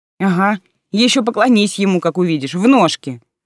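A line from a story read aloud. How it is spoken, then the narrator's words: Scoffing snort. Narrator (Russian): фыркнула Алиса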